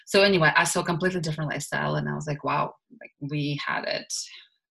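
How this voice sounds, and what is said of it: Russian accent. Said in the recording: “I'm sure you can hear my accent. I'm originally from Russia”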